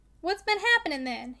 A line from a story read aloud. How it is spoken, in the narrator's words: he said sharply